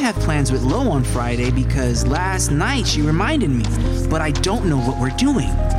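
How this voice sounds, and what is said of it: Usual voice. Nothing is said of it.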